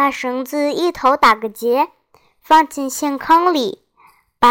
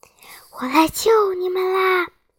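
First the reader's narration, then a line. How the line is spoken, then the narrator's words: Whispering. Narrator (Chinese): 悄声说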